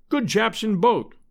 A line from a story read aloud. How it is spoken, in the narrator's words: he said cheerfully